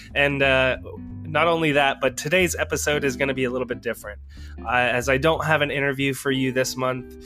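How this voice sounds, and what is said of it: Nasally voice from a cold. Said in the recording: “I've got a little bit of a cold right now, so I apologize for the kind of nasally voice.”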